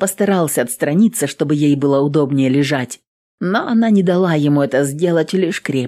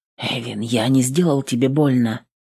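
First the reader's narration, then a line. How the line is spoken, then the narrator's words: Worried whisper. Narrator (Russian): насторожился и обеспокоенно прошептал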